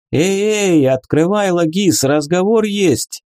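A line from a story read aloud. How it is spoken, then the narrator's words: Loud shout. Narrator (Russian): Громко крикнула Вика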